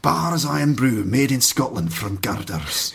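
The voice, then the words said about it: Weak put-on Scottish accent. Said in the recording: “I feel a bit embarrassed when I do a Scottish accent because I don't think it's good enough”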